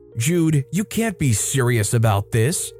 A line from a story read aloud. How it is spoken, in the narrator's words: spat, her voice dripping with venom